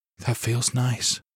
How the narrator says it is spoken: she breathed

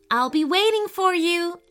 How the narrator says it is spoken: Emma cried, smiling

